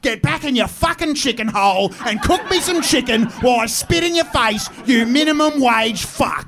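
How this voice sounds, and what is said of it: Impersonates a stereotypical Australian voice. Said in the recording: “my impersonation of the Australian public”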